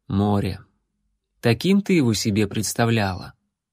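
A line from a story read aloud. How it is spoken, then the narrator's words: Quiet. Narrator (Russian): воин негромко сказал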